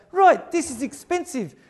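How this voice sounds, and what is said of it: Put-on New Zealand accent. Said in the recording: “I've really got it, the New Zealand accent. ... My grandmother was a Kiwi, so you can tell I'm a natural.”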